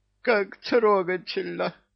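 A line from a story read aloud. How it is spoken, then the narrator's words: Sobbing. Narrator (Russian): всхлипнул трус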